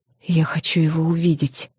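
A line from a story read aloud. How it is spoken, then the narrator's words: Whisper. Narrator (Russian): прошептала я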